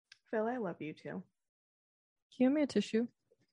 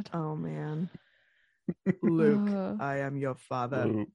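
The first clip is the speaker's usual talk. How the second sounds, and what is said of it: Darth Vader impression. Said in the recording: “Do your best Darth Vader impression.”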